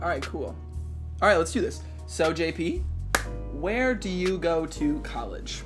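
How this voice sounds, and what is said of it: Usual voice. Nothing is said of it.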